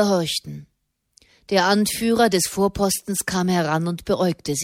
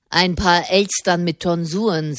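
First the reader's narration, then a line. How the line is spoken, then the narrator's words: Plain. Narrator (German): sagte er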